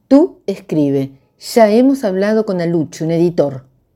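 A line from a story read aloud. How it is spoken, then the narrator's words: Plain. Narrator (Spanish): dijo Vallecas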